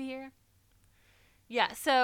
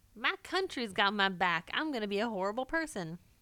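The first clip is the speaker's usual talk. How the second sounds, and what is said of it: Put-on American Southern accent. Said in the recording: “Nice southern accent.”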